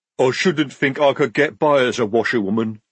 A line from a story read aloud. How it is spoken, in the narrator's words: rumbled Jade